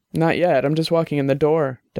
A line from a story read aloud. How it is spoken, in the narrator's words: Dex said